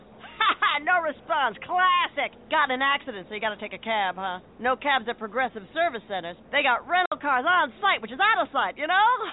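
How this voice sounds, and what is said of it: Traveling lounge singer voice. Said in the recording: “my impression of a traveling lounge singer”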